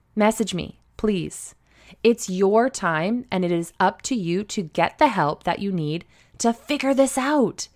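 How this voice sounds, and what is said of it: Energized, fired-up speaking voice. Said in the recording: “As you can likely tell in my voice, I am fired up.”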